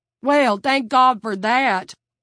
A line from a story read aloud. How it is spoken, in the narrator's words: Vern exclaimed